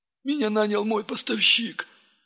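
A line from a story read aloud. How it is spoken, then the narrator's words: Sobbing. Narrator (Russian): всхлипнув, произнес посредник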